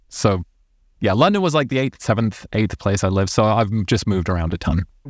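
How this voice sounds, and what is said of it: Mixed, hard-to-place transatlantic accent. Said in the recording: “the weird accent... I'm not just transatlantic, I'm like pan-oceanic”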